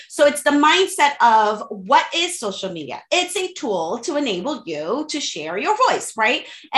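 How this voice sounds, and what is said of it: Slight Haitian accent. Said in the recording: “I'm from Haiti. I'm Haitian. I'm Caribbean. I speak French and Creole fluently. Every now and then you're going to hear the accent”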